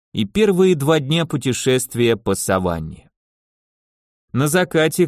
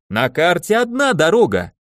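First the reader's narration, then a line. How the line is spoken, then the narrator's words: Screaming scientist. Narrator (Russian): вопил ученый, словно пытался собрать всех гиен в округе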